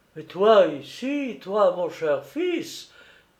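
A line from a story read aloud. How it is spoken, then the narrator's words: Wounded man crying out. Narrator (French): s'écrie le blessé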